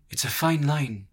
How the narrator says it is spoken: she said at length, her voice husky

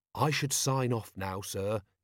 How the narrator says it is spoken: he said gently

